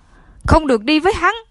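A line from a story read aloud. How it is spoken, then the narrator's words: Loud yelling. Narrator (Vietnamese): Thiết Thành gào to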